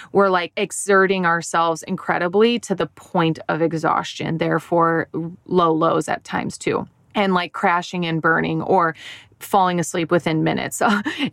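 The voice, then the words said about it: Very fast, excited speech. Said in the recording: “I'm talking so fast because I'm so, I'm very, very passionate about this”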